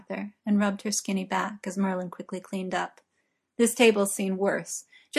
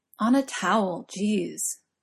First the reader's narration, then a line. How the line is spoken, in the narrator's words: grumbled Merlin